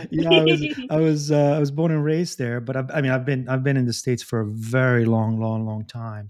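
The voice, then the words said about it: Italian accent. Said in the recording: “I can hear that in your Italian accent.”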